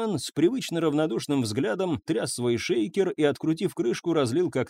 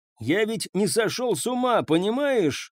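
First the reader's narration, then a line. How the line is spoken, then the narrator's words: Shouted. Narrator (Russian): крикнул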